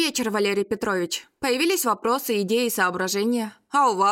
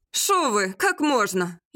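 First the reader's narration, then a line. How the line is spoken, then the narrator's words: Giggling. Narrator (Russian): Я хихикнула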